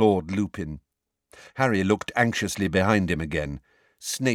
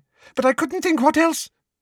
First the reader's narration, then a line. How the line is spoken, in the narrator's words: said anxiously